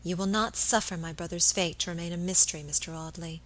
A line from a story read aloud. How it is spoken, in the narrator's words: she said quietly